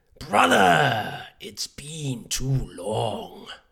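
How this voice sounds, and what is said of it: Imitates a video game character's voice. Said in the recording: “I can do Ocelot ... Yeah, that's pretty good.”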